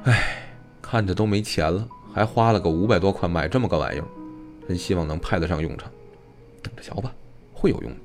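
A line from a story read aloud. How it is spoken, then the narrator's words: Sighing. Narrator (Chinese): 于凯林叹道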